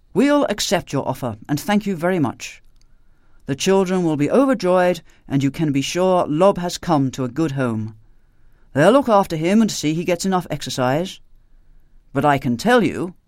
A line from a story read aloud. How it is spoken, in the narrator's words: he ended firmly